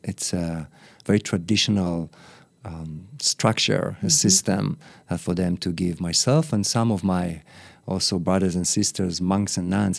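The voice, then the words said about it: Sweet foreign accent. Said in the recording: “They can hear your sweet accent.”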